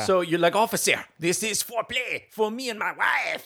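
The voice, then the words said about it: Put-on Quebecois French accent. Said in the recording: “my best Quebecois impression”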